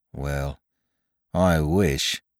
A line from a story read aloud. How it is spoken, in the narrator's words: said Bicky gloomily